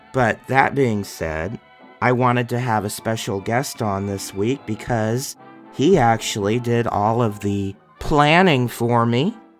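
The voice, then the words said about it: Hoarse, strained voice. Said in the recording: “as you can probably also tell, I had quite a heck of a time because I'm losing my voice.”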